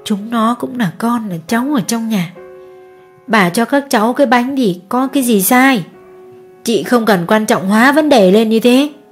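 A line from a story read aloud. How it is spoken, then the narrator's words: Gentle old woman. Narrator (Vietnamese): Bà lão nhìn cô Hương nhẹ nhàng nói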